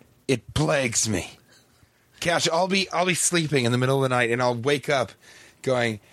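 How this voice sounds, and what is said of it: Usual voice. Nothing is said of it.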